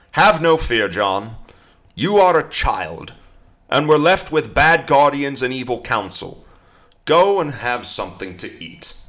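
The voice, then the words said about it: Put-on accent for a quote. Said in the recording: “Probably didn't sound anything like that accent either.”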